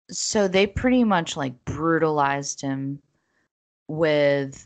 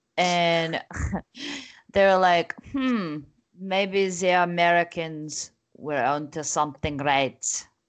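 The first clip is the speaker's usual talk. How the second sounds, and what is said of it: Put-on foreign accent, bad French. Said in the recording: “I don't know what accent that is ... Are you like a bad French waiter?”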